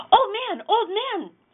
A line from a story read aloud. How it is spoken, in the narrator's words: shouted Chang